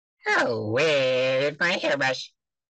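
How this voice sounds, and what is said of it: Cartoon cucumber character voice impression. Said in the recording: “That sounds a lot like Larry. One of the best impressions I've heard.”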